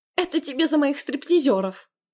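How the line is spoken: Laughing loudly. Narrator (Russian): Хохотала

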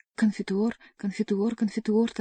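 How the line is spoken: Hurried droning. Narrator (Russian): торопливо забубнил монах

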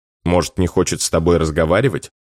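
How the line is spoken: Malicious smirk. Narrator (Russian): Злобно усмехаюсь

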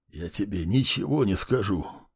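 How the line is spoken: Hoarse rasp. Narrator (Russian): прохрипел он

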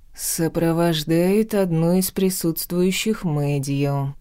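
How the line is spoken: Through gritted teeth. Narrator (Russian): процедил Лорн

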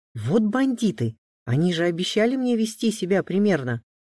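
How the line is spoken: Irritated, nervous exclamation. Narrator (Russian): раздраженно воскликнул Саша, но начал заметно нервничать

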